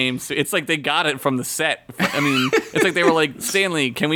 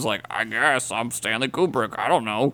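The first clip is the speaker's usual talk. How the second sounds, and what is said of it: Imitates another person's voice. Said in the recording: “good Stanley Kubrick impression”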